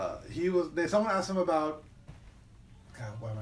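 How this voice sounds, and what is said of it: Usual voice. Nothing is said of it.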